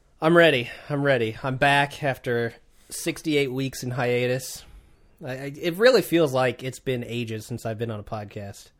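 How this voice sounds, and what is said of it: Sick, congested voice. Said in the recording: “I've been sick. You can probably hear it in my voice. ... the forces of evil in my nose.”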